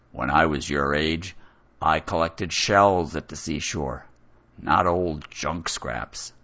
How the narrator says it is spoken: a raspy voice grunts

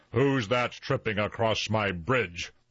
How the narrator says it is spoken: roared the troll

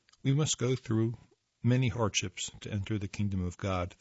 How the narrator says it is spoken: they said

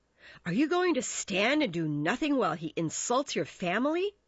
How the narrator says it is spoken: gasped Mercutio

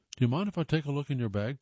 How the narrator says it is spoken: Thompson asked

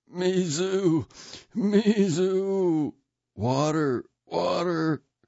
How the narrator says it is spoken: Those who were burned moaned

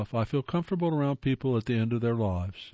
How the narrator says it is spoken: says Freddie Fuller

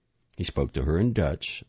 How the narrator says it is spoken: Soria said, but in the same tone that the men in her own family spoke to their mothers, gravely, with a touch of fear

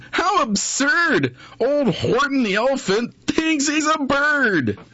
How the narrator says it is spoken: They laughed, and they laughed

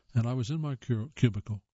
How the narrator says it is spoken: I said, my voice trembling with nerves

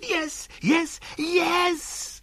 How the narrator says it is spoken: screamed Passepartout

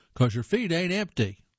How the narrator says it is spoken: One little fellow shouts

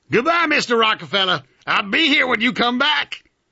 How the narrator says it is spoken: Henry Martin yelled out to me

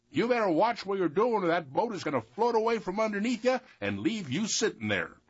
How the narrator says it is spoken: he hollered out at him

